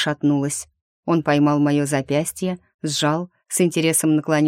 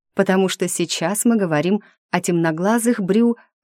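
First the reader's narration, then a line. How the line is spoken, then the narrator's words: Laughing. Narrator (Russian): рассмеявшись, Ариас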